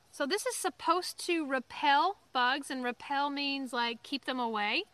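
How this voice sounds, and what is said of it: Southern American accent. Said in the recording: “Love the southern accent.”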